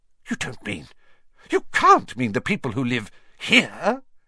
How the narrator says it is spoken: cried Professor McGonagall

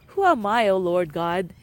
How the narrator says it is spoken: he exclaimed

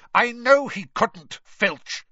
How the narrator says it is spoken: Snape snapped

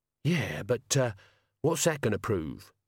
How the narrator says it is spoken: Death sighed

